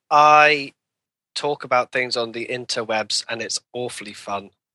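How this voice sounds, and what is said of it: British accent. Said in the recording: “You also have a British accent”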